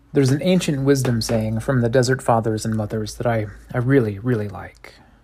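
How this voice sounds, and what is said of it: Tired-sounding voice. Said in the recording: “I sound tired”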